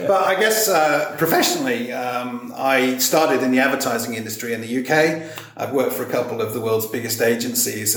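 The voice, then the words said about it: Mixed English and international accent. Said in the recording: “My accent's a little bit messed up because it's a melting pot of different accents. I actually grew up in regional England in the Cotswolds ... my accent's a mess”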